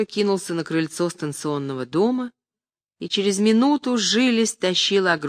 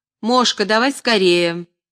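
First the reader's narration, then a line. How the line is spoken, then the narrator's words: Shouted. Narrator (Russian): крикнул Тихоныч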